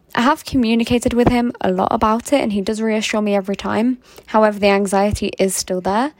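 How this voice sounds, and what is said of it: Posh, sing-songy, lovely accent. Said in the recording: “I love her accent. She sounds so adorable. ... that sounds so like posh and lovely. ... Sing-songy and just like beautiful. ... And expensive sounding.”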